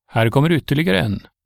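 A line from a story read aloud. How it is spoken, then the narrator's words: Guard calling down. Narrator (Swedish): vakten ... han ropade ner till de andra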